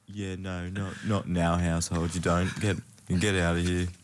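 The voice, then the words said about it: Unconvincing impression of Kate. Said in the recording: “that impersonation ... It really didn't sound very female-y, did it? ... No, it didn't at all.”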